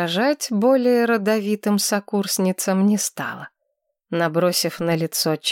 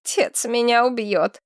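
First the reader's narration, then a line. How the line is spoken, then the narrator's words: Grumbled mutter. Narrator (Russian): буркнула Адель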